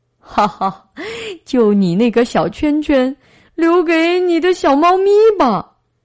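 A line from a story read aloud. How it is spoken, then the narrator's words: Mocking. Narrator (Chinese): 驯兽师嘲笑道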